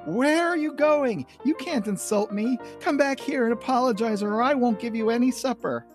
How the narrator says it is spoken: Lucy yells

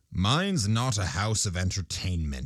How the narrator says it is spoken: he said haughtily

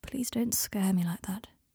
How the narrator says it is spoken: he said quietly

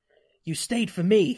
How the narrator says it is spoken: says fiercely

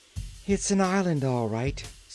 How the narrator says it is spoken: said Trot with a sigh

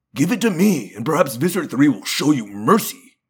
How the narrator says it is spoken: he snapped

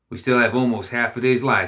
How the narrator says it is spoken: he said

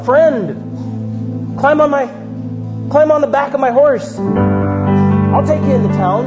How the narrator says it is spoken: The farmer called out

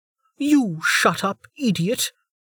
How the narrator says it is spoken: Maria snapped back, still grinning

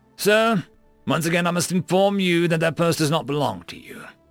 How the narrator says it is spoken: shouted back down

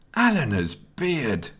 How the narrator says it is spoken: Nelson exclaimed, almost out of breath

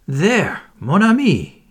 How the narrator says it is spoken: he cried

